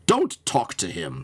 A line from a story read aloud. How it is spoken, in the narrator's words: snapped James